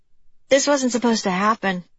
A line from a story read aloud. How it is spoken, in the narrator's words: she blurted out